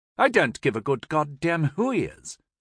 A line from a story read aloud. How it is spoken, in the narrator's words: the younger brother blurted out, albeit with less gusto than his original complaint